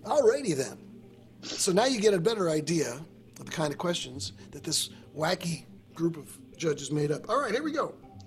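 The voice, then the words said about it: Exaggerated game show host voice. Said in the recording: “my game show voice takes a little bit more out of my throat”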